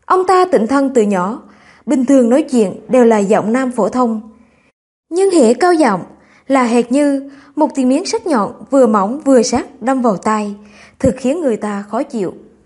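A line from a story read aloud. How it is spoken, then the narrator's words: Bursting laughter. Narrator (Vietnamese): Sở Thiên Quyền cười phá lên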